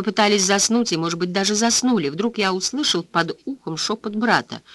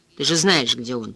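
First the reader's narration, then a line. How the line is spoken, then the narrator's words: Muttered. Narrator (Russian): пробормотал я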